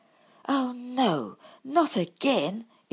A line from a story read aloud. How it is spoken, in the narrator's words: exclaimed Bumble